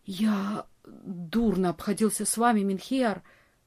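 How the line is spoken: Whispered. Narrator (Russian): прошептал

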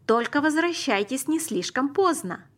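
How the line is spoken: Calling after, mother. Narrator (Russian): крикнула мама нам вслед

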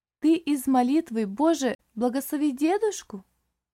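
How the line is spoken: Lively child's exclamation. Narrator (Russian): живо воскликнула малышка

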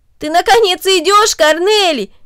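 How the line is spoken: Exclaimed. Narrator (Russian): воскликнул Дино

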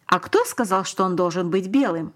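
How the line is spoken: Plain question. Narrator (Russian): спросил папа

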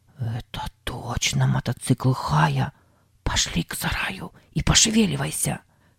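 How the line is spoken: Whisper. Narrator (Russian): прошептал Сэм

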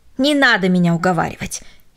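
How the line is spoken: Angry dismissal. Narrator (Russian): сердито отмахивался он

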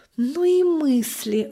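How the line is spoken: Mother's sigh. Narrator (Russian): вздохнула мама

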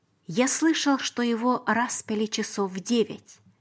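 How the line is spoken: Plain. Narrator (Russian): сказал Иосиф

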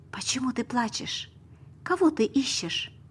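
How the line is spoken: Soft. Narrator (Russian): сказал мягко

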